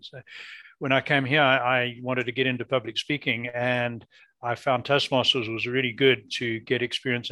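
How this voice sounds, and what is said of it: Non-North American accent. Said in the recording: “as you can hear from my voice, I'm not a born Canadian or North American. I lived most of my life in Africa.”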